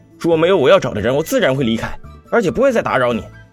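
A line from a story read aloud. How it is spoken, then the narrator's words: Cold, suppressed fury. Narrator (Chinese): 少女气得脸都白了，强压下怒气，冷声道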